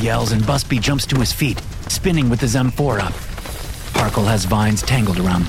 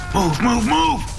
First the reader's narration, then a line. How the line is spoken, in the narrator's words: Busby shouts